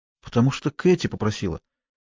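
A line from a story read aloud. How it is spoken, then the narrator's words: Quiet after pause. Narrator (Russian): Помолчав, она тихо сказала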